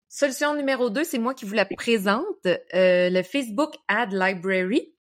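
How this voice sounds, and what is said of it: English-accented pronunciation of English words. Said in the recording (French): “Vous entendez mon superbe accent anglais.”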